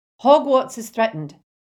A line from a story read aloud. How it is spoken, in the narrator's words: shouted Professor McGonagall